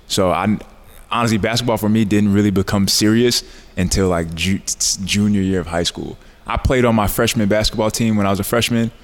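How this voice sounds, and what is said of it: New York accent. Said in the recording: “You still have that New York accent ... It comes out from time to time”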